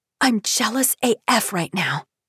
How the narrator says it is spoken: stage whispers

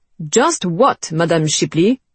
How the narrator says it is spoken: He snapped

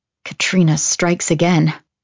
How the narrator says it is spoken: I mutter

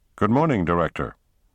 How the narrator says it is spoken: replied the White House Chief of Staff stiffly

